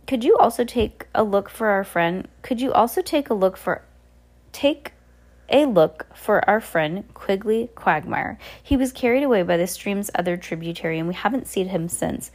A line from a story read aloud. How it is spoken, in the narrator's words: Violet said hesitantly